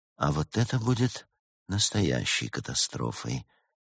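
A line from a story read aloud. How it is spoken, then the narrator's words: Unsettlingly quiet statement. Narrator (Russian): произнес так тихо, что всем стало не по себе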